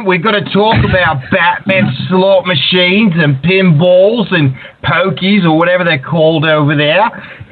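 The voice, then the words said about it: Australian accent. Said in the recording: “you've mastered the Australian accent.”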